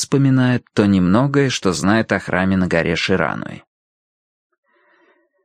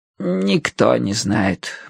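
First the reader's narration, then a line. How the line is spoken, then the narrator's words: Muttering to herself. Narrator (Russian): бормочет она, отвечая самой себе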